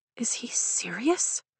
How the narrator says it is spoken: I whisper to Liam

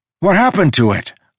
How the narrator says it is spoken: I shouted

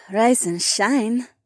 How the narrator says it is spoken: the Korean sighed

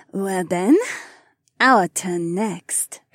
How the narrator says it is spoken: Haywan purred

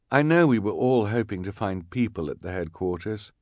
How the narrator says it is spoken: the sweated scout said gently

